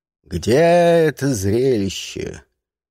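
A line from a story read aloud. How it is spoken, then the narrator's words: Loud question. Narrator (Russian): Фортинбрас громко спросил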